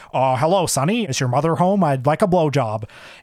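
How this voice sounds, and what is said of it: Richard Pryor's white guy voice. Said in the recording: “imitating Richard Pryor ... I'll imitate him doing the white guy voice”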